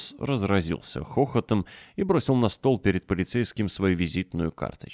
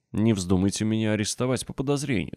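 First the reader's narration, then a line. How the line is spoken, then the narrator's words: Plain. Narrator (Russian): сказал он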